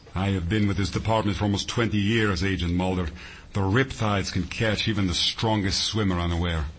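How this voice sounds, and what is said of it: Russian-sounding accent. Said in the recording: “Your accent, is it Russian?”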